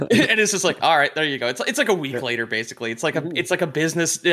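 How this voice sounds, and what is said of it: Usual voice. Nothing is said of it.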